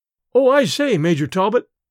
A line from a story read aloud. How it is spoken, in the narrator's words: he exclaimed frankly